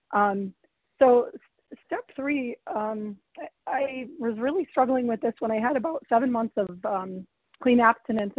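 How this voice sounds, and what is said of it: Hoarse, fading voice. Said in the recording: “losing my voice a bit, but hopefully I'm understandable”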